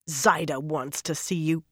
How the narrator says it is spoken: Birgitta growled at Elaine

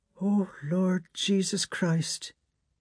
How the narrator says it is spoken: she murmured

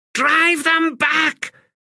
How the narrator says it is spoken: Pithy screamed

